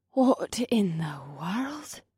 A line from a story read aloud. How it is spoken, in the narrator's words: Brenna breathed